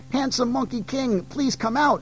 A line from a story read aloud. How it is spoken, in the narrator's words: she pleaded